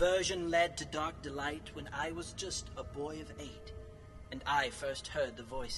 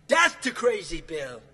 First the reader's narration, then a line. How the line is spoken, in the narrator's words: they mocked and jeered